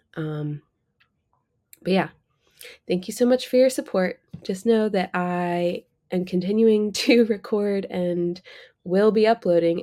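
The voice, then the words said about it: Sick-sounding voice. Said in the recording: “can hear from my voice now, I've been sick for like a week.”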